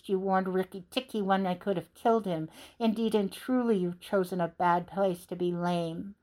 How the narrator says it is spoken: Nagina hissed

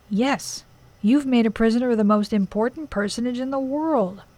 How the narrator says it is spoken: groaned the old man

